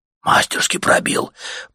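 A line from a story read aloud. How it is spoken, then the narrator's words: Respectful whisper. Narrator (Russian): прошептал уважительно кто-то в собравшейся вокруг толпе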